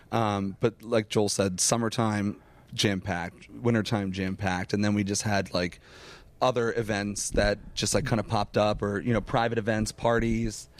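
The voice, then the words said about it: Hoarse, strained voice. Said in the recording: “I'm losing my voice already. ... I noticed that a few minutes ago”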